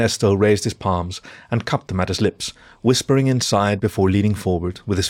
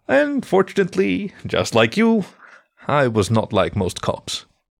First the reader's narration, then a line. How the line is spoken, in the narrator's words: with a small chuckle before adding